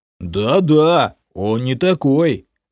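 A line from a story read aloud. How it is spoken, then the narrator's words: Supportive booming guard. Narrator (Russian): Мне в поддержку прогудел стражник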